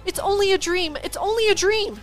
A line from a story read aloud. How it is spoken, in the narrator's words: cried